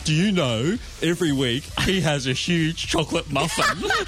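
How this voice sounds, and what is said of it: Imitates another person's voice. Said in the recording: “I like my impersonation.”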